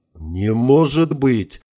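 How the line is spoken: Breathless exhale. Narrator (Russian): выдохнул я

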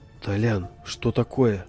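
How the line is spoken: Wary question. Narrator (Russian): опасливым тоном спросил Саша

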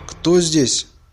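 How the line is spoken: Shout. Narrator (Russian): крикнул он

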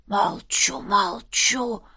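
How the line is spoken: Reverent whisper. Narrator (Russian): благоговейно прошептал гном

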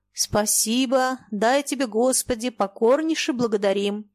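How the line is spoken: Cheerful, dismissive shout. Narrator (Russian): кто-то весело и пренебрежительно крикнул

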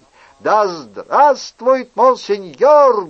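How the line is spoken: Shouting in unison. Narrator (Russian): дружно закричали кавалеристы

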